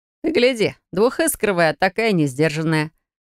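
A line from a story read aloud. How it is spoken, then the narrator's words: Chuckling remark. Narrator (Russian): Хохотнул кто-то сбоку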